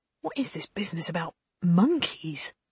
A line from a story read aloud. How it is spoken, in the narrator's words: Lane was murmuring